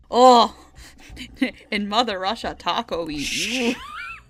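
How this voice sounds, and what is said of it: Put-on Russian accent. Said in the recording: “talk to you in a Russian accent”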